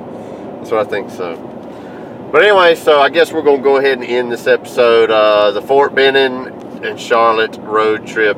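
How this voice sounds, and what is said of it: Rural Southern American accent. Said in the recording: “since we're so redneck... I love your accent.”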